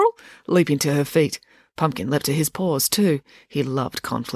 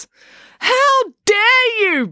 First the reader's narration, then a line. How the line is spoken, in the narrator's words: bellowed April